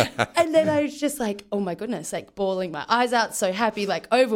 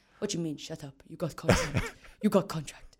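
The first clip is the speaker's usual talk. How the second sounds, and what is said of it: Impersonation of a coach. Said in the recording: “You do a brilliant Bobby impersonation,”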